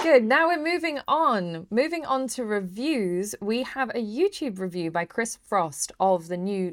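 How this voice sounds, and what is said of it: Usual voice. Nothing is said of it.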